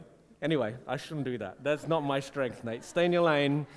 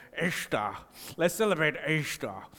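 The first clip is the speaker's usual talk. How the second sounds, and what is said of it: Put-on Welsh accent. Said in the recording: “some kind of Welsh person with a real like ... accents don't work for me ... You're the nerd, not the accents guy.”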